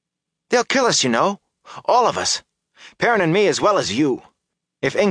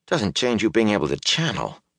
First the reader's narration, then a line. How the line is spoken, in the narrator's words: Matt muttered